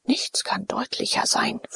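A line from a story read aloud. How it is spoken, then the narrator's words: Whispered. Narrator (German): flüsterte Diomed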